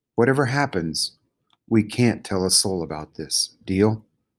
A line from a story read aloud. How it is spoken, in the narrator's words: Samar said softly